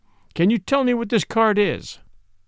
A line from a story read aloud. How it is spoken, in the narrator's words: he cried